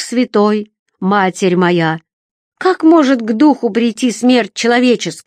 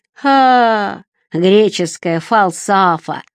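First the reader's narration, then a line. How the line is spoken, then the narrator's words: Contemptuous drawl. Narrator (Russian): презрительно протянул Сарацин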